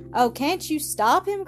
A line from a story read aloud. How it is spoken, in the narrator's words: cried Maddie Williams